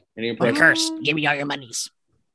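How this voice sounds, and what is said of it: Danhausen impression. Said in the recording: “impersonations of wrestlers ... I'm using my Danhausen one because I perfected it in Vegas”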